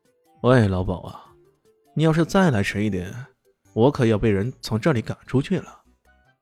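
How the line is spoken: Lazy, sighing. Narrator (Chinese): 李轩慢悠悠地伸了个懒腰，叹了口气道

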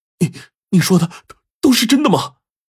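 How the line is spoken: Trembling voice. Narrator (Chinese): 姚天赐颤声的说道

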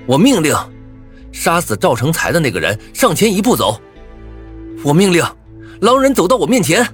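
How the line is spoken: Anxious loud shout. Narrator (Chinese): 我有些急了，再次大声喊道

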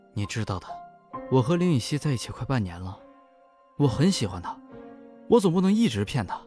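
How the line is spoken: Low voice. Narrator (Chinese): 蒋月低声说

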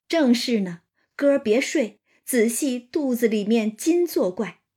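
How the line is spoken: Laughing. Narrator (Chinese): 王一贴笑道

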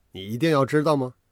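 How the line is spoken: Faint smile. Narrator (Chinese): 我只是淡淡的一笑，说道

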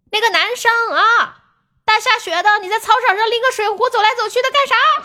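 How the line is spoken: Teacher shouting through megaphone. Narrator (Chinese): 学校的老师拿着大喇叭在喊

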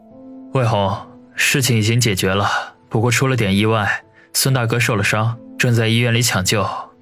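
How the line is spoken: Deep breath, grave voice. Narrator (Chinese): 王宇深吸一口气，沉声地说

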